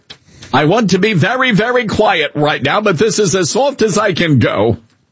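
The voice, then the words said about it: Soft Bernie Sanders-like accent. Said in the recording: “I want that guy's accent. ... It's kind of giving Bernie Sanders a little bit, mixed with Harry Hinton.”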